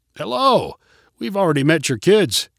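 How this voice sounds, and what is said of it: Friendly voice. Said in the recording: “called Roger in a friendly voice.”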